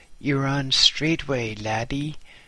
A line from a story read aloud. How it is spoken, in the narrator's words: said Mack